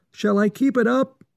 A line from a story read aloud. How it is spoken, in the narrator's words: shouted Johnny in the ear of the hunter